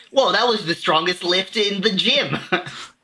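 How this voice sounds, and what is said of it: Put-on Brooklyn accent. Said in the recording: “some kid with a Brooklyn accent shows up”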